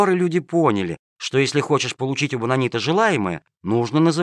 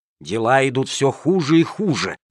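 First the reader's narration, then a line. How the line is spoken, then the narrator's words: Angry hissing. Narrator (Russian): шипели они, позеленев от злости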